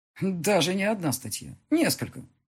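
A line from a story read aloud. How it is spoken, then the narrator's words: Dry snort. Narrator (Russian): хмыкнул он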